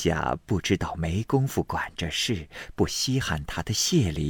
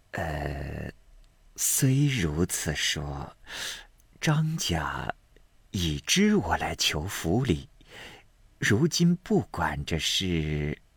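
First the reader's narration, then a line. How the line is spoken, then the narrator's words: Sighing after pause. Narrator (Chinese): 景虚半晌叹道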